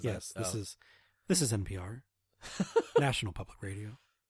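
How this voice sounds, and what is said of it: Public radio announcer voice. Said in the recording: “NPR voice”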